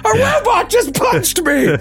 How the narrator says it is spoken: Karazor shouts

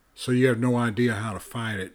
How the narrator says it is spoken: James said

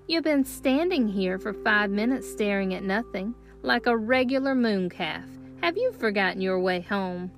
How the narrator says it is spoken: Hannah was teasing me, laughing at my absent-mindedness

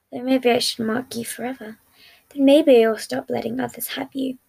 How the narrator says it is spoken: murmuring

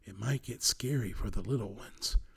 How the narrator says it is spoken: he whispered

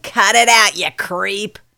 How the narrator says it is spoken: sneer, snarling

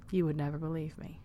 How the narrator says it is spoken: murmured to himself

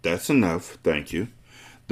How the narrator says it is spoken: the boy murmured

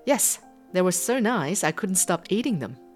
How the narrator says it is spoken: Leo laughed and said

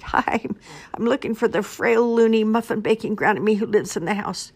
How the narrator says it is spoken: The wolf gasped and stammered

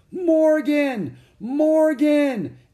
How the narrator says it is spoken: Annie yelled

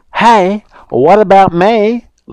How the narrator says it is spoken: Little Rude called out to the woodcutter

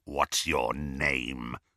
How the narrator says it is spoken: snarled Greyback

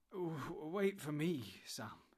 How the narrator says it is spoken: he stammered

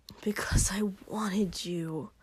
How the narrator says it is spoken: Shoto hissed

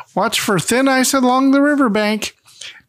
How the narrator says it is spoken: Ma shouts

